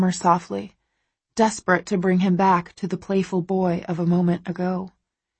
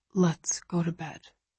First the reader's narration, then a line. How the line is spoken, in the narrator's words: he says quietly after a while